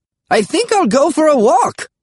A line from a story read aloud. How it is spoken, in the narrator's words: Grandpa Smedry said cheerfully